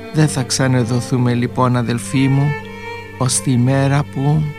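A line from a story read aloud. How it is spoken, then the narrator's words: Quiet. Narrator (Greek): Σιγά ο Αλέξιος της είπε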